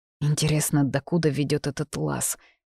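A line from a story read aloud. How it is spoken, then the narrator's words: Teeth-chattering mutter. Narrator (Russian): стуча зубами, пробормотала Мириона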